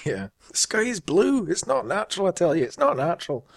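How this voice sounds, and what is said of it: Put-on Scottish accent. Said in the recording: “I've been practicing my Scottish accent just for you.”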